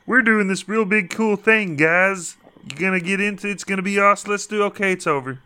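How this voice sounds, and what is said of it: Put-on corporate executive character voice. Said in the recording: “What is that voice? ... Is that your Netflix voice? ... CEO of Netflix right there. ... That's what Netflix sounds like. ... That's what the Netflix troll sounds like. ... terrifying”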